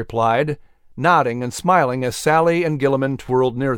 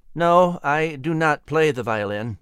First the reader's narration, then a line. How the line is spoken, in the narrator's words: Thomas replied stiffly